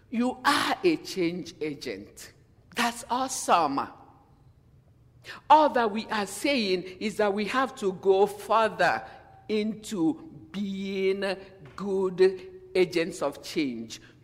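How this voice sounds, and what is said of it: African accent. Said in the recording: “I have an accent. I am a woman. I am from Africa originally.”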